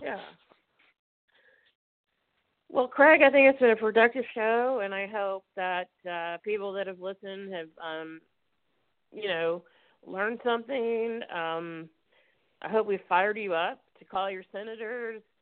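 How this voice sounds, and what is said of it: Cracking, congested voice. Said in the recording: “my voice sounds like Peter Brady. My allergies are so bad right now.”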